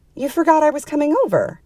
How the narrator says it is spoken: the woman blurted

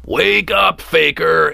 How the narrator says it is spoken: Eric hollered up to the bedroom window

